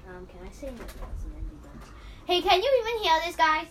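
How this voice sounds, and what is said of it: Shouting. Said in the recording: “you're shouting”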